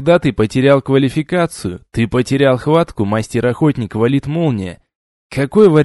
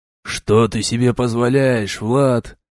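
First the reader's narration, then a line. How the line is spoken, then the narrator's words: Quiet indignation, father. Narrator (Russian): Попробовал тихо возмутиться зовом папа Мю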